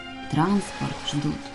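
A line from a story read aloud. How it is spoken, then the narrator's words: Barely audible. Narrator (Russian): едва слышно Ваня произнес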